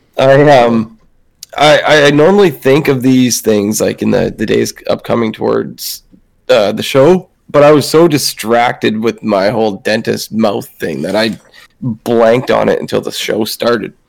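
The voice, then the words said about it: Strained, nearly lost voice. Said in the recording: “almost losing my voice”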